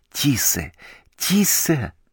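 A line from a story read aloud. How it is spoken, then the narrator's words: Pleading whisper. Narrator (Russian): умоляюще прошептал Либо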